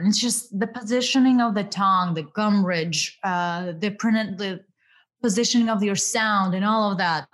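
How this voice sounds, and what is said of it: Russian-accented English. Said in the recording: “I really work hard towards reducing my Russian accent”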